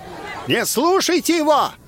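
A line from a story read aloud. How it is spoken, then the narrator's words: Shouted. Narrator (Russian): крикнул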